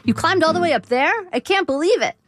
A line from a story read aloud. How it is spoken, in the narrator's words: I would shake my head in mock disbelief and exclaim